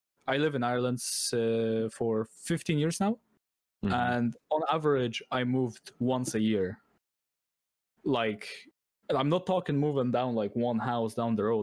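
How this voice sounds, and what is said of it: Mixed local Irish accent. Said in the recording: “my accent is a mix of a lot of local Irish accents”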